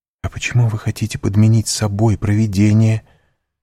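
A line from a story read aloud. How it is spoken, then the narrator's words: Exclaiming. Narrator (Russian): воскликнула Мерседес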